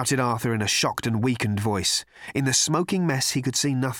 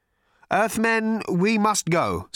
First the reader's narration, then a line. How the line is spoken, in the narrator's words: said Slarty Bartfast nervously